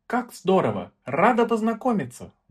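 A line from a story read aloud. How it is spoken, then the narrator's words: Exclaimed. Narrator (Russian): воскликнула Эльза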